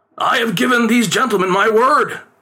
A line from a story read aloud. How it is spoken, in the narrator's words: his father pleaded